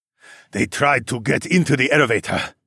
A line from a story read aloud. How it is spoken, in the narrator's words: Quan growled